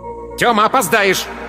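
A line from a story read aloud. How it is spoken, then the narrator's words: Mother's angry distant shout. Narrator (Russian): крикнула из кухни мать, и ее голос уже был сердитым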